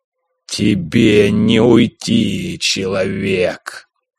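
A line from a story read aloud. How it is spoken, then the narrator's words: Growling from above. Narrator (Russian): Раздался рычащий голос прыгуна откуда-то сверху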